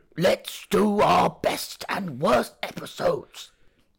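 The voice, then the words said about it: Imitation of a character's voice. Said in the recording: “my Dorian impression”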